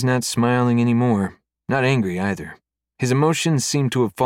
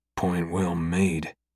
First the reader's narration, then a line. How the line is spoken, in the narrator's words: he says under his breath